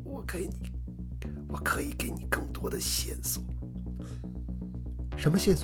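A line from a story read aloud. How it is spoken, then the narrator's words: Suddenly lowered voice. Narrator (Chinese): 男子忽然压低了声音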